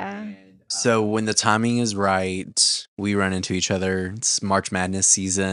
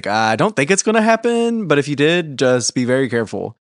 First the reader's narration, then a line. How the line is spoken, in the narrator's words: laughed and he's like